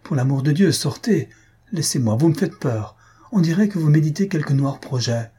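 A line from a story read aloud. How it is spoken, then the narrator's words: Woman exclaiming. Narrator (French): s'écria-t-elle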